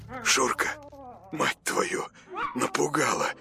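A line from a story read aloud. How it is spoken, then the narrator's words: Muttered. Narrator (Russian): пробормотал он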